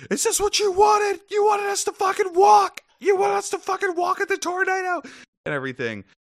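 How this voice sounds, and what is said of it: Yelling angrily. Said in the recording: “I'm yelling”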